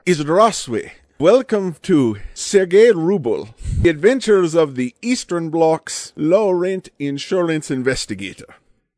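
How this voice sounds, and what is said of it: Unconvincing put-on Eastern Bloc accent. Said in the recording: “now you know why I don't make my living doing Eastern Bloc accents”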